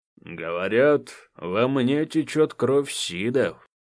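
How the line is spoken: Deep bass voice. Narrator (Russian): справа от меня пробасил Марат

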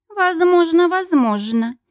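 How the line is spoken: Lazy speech. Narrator (Russian): лениво проговорила Каролина

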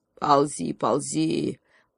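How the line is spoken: Lion's growl. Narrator (Russian): прорычал ей вслед лев

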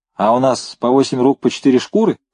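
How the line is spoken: Plain. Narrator (Russian): спросил Девяткин

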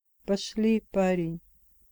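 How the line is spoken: Quiet. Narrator (Russian): тихо сказал Джейми

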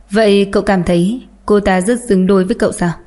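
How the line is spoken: Impatient, colder voice. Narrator (Vietnamese): Thần sắc của Tiêu Kỳ Nhiên trở nên không kiên nhẫn, giọng nói càng thêm lạnh lùng hơn

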